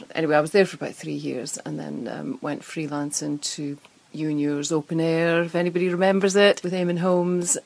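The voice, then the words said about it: Scottish accent. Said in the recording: “wee Scottish lass ... your accent ... I get more Scottish when I'm up in Scotland”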